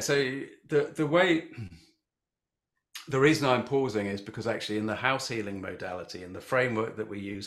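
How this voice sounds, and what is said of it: British English accent. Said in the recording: “if they don't get your accent, you're in the UK”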